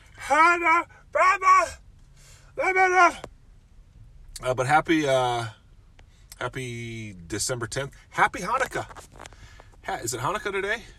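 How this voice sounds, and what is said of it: Hoarse, strained voice. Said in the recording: “I've been screaming too much. Listen to my voice. Losing my voice.”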